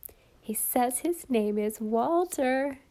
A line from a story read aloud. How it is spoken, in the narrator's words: Cora giggled to Alice